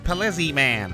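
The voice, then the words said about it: Skeletor cartoon villain impression. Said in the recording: “I do a flawless Skeletor impersonation ... You sound like Ross Perot doing a George Bush laugh”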